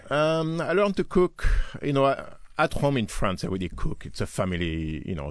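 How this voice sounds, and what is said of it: French-accented English. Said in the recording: “You have a French accent”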